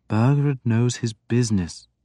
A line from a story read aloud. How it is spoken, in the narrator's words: Beorka said soothingly